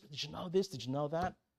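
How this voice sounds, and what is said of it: Gossipy whisper. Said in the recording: “Whisper”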